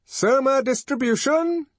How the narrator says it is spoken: shouted a loud voice

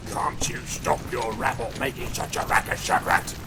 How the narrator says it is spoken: grunted the one

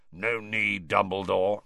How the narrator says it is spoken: said a wheezy growl

